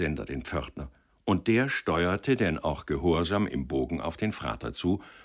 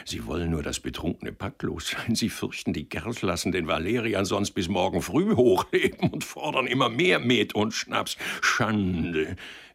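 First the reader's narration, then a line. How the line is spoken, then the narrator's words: Giggling. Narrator (German): kicherte er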